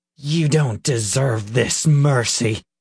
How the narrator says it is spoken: Peter spat

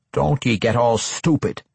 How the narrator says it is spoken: grumbled the dwarf

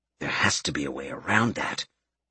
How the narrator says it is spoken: Albert muttered

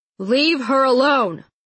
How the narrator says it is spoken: bellowed Edgar suddenly

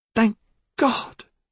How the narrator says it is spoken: Yasmina cried

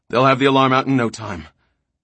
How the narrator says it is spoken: Devers said huskily, quickly

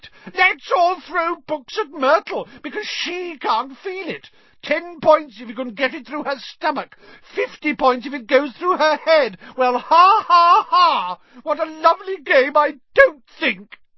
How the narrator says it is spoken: Myrtle shrieked

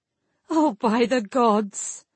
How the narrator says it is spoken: Lavian laughed aloud

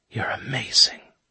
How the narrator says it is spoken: whispered

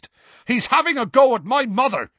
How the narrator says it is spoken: Seamus yelled

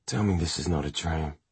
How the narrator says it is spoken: he had whispered to her

